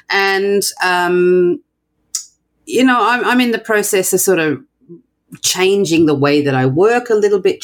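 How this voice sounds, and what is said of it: Australian accent. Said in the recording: “I'm not American. I don't sound American ... I'm from Australia”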